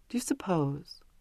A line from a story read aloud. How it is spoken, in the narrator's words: said wistfully